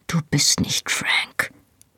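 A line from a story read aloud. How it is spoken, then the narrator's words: Whispered. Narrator (German): flüsterte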